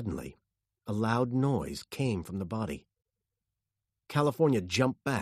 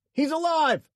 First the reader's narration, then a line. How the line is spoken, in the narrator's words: he shouted